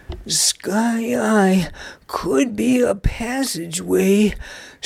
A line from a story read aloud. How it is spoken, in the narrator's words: suggested a wheezing Nug